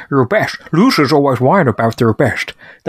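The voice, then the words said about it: Bad Sean Connery impression. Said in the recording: “worst Sean Connery impression you'll ever hear”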